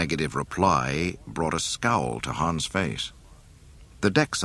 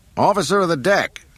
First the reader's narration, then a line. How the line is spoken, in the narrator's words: Han yelled